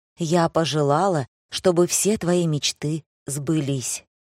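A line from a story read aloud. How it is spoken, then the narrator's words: Whisper in ear. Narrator (Russian): прошептала мне на ухо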